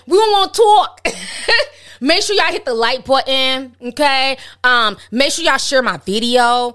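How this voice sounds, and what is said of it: Put-on New York accent. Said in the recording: “Let me throw out my New York accent ... That's my New York accent, eh?”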